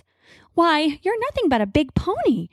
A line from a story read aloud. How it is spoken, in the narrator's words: she says with a musical little laugh